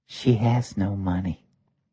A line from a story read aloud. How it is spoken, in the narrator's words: The waitress whispered